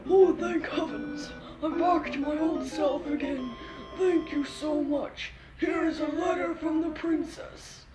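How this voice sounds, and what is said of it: Character voice of a king. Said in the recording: “My king accent.”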